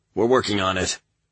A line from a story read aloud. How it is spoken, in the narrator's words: Corporal Vasi replied, his voice tense